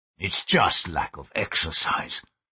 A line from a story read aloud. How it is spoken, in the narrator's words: he muttered